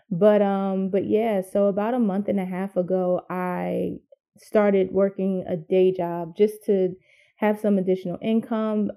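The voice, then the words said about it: Tired, weary-sounding voice. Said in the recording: “You can hear it in my voice. I'm tired. I need a vacation. I need to sleep like for 3 days.”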